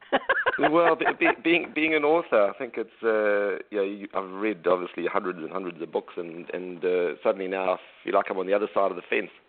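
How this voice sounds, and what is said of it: Australian accent. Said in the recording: “Are you a real Aussie? Is this the real deal, this wonderful accent I'm hearing ... is this an Aussie accent”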